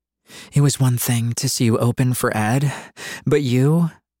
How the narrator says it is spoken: She breathed between kisses

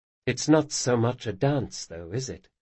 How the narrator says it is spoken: she said softly

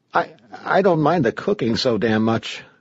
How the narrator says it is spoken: Clark said nervously

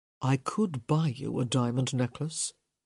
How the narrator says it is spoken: he said softly

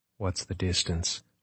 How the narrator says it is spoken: Margot said in a monotone

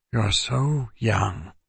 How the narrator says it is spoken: Agad said sadly

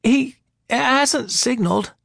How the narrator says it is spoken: Ira said in a wavering voice

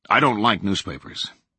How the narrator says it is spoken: he had said flatly

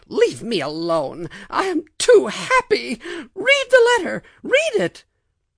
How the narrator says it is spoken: she cried out

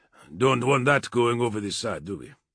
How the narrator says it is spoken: Alexander said sternly

